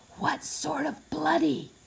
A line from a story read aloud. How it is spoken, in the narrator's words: he demanded in a whisper